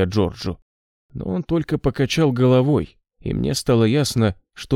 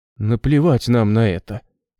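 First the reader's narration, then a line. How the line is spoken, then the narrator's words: Trembling voice. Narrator (Russian): сказал Джордж дрожащим голосом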